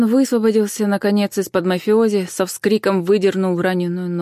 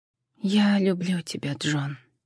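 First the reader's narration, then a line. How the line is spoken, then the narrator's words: Quiet farewell. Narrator (Russian): так же тихо попрощалась она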